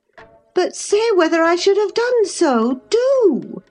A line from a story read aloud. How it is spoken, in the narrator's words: she exclaimed in an irritated tone